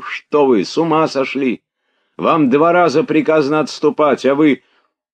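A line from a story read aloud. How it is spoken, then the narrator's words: Breathless shouting. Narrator (Russian): Он запыхавшимся голосом кричал ему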